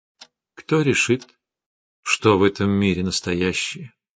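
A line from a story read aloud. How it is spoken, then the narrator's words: Thoughtful. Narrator (Russian): задумчиво сказала Арина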